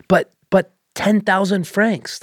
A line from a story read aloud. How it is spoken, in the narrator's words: the sister asked in a horrid gasp